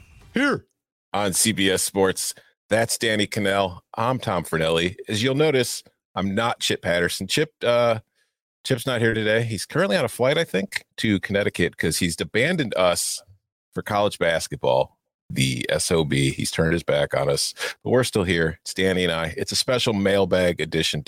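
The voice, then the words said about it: Impression of Chip Patterson. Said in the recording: “your Chip Patterson intro impression... I'll give it a C+... I don't know if the pitch was quite high enough, and the energy definitely did not match where Chip usually brings it”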